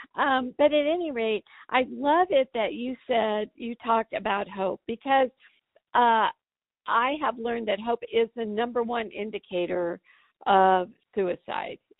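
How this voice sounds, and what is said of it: Croaky voice cutting in and out. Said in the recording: “sorry about my voice. I've been going through this cold thing, and my voice comes in and out. So if I start sounding a little croaky”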